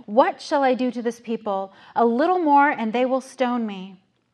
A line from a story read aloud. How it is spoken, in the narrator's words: Moses cried out to the Lord, saying